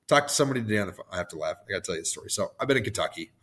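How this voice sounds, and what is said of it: Hoarse, worn-out voice. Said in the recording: “my voice is shot, and that's why it sounds like it does”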